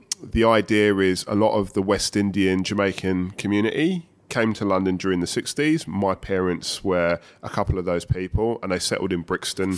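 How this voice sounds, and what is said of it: London accent. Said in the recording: “I was born in London, as you can tell from the accent.”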